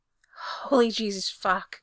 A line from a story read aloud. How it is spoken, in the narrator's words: Gerard gasped when Frank mouthed his neck